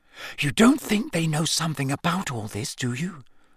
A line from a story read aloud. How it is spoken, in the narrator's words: Hermione whispered